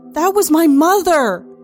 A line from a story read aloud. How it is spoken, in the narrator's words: yell